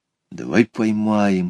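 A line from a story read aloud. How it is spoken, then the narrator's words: Whisper. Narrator (Russian): шепнул Петя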